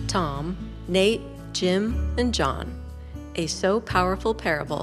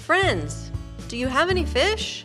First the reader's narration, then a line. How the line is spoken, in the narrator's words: He called out to them